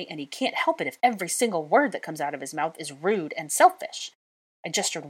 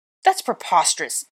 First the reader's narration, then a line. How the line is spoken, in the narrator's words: Draco spat